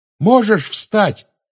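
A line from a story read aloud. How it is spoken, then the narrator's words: Shouting into ear. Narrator (Russian): крикнул он в ухо товарищу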